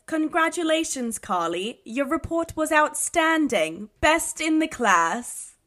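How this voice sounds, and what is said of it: Put-on accent. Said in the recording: “I know you're going to make me do this in an accent.”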